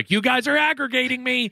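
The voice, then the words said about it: Yelling. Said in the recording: “I'm yelling at my kids”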